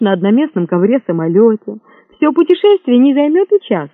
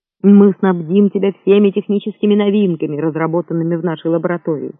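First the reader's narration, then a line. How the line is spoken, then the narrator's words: Quick speech. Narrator (Russian): быстро сказал микробчик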